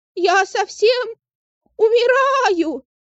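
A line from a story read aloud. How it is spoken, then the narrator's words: Screaming goat. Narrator (Russian): закричал козлик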